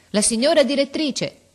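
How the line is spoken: Doorkeeper shouting. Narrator (Italian): arrivò la portinaia gridando

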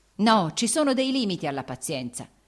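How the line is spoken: Shouted. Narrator (Italian): egli gridò

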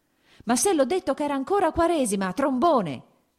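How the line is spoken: Shouted. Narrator (Italian): gridò

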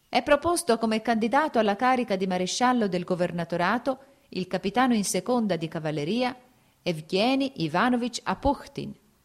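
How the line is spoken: Shrill loud proclamation. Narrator (Italian): un uomo in divisa e con voce stridula e alta proclamava

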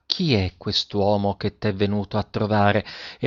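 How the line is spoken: Quiet, smiling voice. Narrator (Italian): La maestra sorrise e disse a bassa voce alla ragazza

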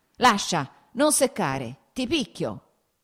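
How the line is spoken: Shouted. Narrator (Italian): gridò

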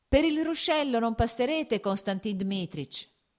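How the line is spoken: Boy shouting. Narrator (Italian): gridò il garzone

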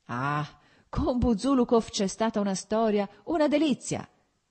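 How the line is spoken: Shouted. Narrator (Italian): gridò Petrichki

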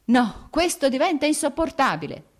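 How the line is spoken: Shout. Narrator (Italian): gridò Vronsky

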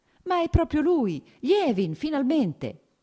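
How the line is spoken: Warm teasing exclamation. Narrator (Italian): esclamò con un sorriso cordialmente canzonatorio

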